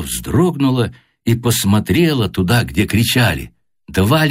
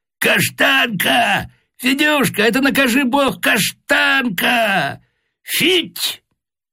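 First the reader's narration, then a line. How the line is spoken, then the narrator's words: Loud calling, child and man. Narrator (Russian): два голоса, один детский, другой мужской, громко позвали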